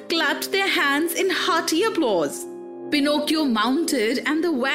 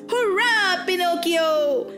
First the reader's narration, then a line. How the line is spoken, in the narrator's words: all the boys shouted